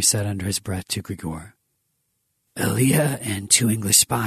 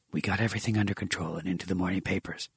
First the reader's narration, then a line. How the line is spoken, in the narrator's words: Grigor whispered in his ear